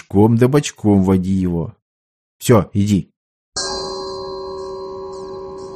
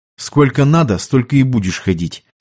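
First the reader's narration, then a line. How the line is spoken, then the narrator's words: Stern, curt. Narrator (Russian): строго отрезал Ушаков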